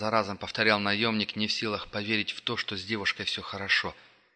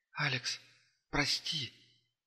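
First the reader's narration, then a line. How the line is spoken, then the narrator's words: Weak voice. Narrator (Russian): произнесла она слабым голосом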